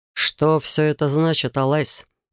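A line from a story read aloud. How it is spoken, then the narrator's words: Growled. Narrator (Russian): прорычал Рейган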